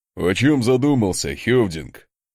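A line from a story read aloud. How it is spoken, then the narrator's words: Laughing. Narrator (Russian): хохотнул рядом Асмунд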